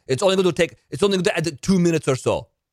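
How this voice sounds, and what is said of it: Attempted Russian accent. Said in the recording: “I can't do a Russian accent... Got to do it like Russian... So I went to the Russian.”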